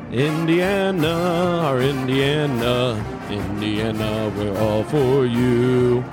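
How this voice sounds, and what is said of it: Singing in falsetto. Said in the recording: “Went to the falsetto there for you.”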